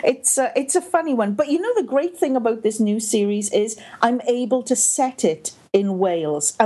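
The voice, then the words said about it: Welsh-Canadian accent. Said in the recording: “This is a Welsh-Canadian accent. Sometimes it's a little bit more Welsh, and other times it's a little bit more Canadian. ... I very seldom actually hear the Canadian part of it, other than the A. ... my transatlantic accent”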